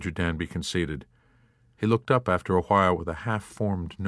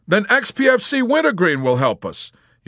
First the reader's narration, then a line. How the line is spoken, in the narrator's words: Yossarian exclaimed